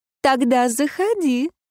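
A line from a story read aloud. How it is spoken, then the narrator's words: Purring. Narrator (Russian): промурлыкала я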